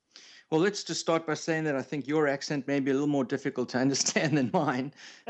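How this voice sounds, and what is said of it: South African accent. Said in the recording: “He's a South African ... he's got a little bit of an accent”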